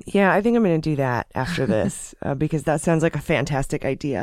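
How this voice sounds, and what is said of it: Strained, fading voice. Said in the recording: “I am losing my voice today. ... I apologize for my voice today”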